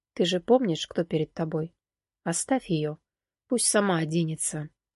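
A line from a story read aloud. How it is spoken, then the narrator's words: Young man speaking quietly. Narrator (Russian): один из парней негромко сказал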